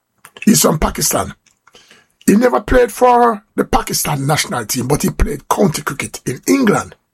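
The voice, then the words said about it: Jamaican accent. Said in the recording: “The accent, where you from?" And I said, "Jamaica."”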